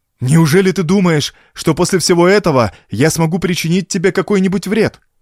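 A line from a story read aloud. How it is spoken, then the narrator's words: Exclaimed. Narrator (Russian): воскликнул Уэнтард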